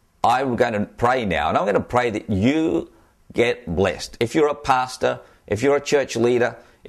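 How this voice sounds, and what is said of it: Australian accent. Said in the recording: “as you can tell from my accent, I'm an Australian”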